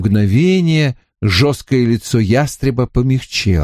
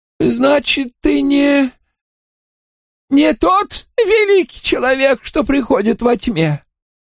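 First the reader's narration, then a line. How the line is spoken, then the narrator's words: Tense. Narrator (Russian): Сказала она как-то напряженно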